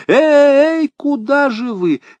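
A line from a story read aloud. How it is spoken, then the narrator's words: Yell through glass. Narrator (Russian): Мистер Туэйт завопил сквозь стекло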